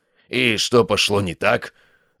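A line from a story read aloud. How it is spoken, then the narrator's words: Growled. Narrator (Russian): рыкнул Абель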